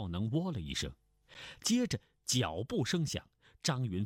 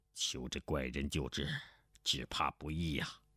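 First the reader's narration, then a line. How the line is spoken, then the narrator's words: Low voice. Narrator (Chinese): 钟兆文低声说道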